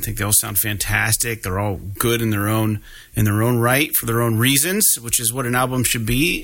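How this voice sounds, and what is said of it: Congested, worn-out voice. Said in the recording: “my voice is not holding up. I've been congested the last couple of weeks ... my voice is just fried”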